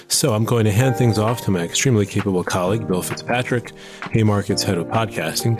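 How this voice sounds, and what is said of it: Unwell voice in poor shape. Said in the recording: “as you can hear, my voice is in, let's call it less than optimal shape, as I recover from a bout with the flu”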